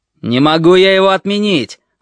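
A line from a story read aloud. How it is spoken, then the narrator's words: Yelling. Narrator (Russian): орал полковник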